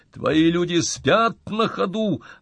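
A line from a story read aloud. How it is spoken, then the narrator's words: Shouting. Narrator (Russian): орал он генералу Коновалову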